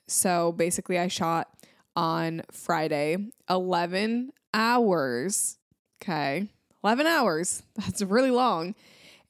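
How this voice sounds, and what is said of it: Sick, congested-sounding voice. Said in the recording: “I am sick. I don't know if you guys can hear it in my voice”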